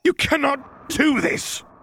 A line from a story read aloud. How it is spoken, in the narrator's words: Ozzel snapped